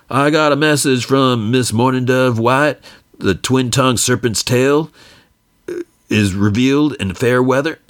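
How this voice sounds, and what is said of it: Poor, half-hearted imitation of a singer. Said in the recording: “my horrible Elvis impression, not even trying”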